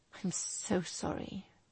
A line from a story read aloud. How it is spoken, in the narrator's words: he murmured